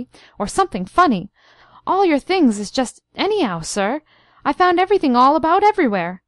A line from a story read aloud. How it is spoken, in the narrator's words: she cried excitedly